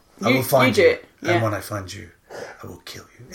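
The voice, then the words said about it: Controlled, threatening movie-villain voice. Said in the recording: “he doesn't speak that angrily. It's more like controlled... It's more threatening.”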